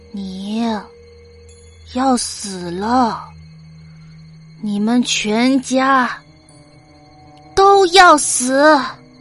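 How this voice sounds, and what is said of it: Cold, sinister voice. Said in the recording (Chinese): “继续用那种阴冷的声音说”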